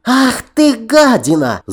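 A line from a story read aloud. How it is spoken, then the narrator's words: Shriek. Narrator (Russian): взвизгнула она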